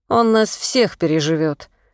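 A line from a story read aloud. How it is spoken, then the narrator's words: Grumbling. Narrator (Russian): проворчал Николай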